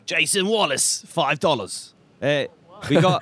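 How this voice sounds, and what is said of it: Put-on Jersey accent. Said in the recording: “Why are you doing the Jersey accent?”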